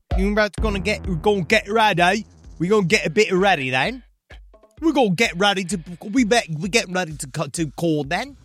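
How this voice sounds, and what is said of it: Poor put-on British accent. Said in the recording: “14 years still hasn't improved... this is a British accent... It is a British accent”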